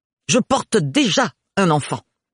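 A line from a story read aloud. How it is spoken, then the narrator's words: Growled. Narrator (French): gronda Agathe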